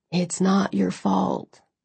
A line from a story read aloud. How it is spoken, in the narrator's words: he said softly